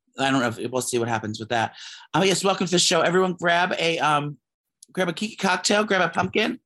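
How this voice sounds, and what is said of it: Hoarse voice. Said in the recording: “pardon my voice is hoarse ... you sound weird”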